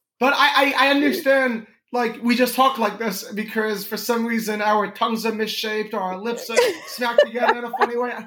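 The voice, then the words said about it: New York accent. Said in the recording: “nobody in New York, like, thinks I talk funny ... why do you sound so New York? ... you definitely have a New York.”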